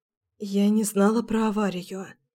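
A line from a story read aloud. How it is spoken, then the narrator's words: Whispered. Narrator (Russian): прошептала я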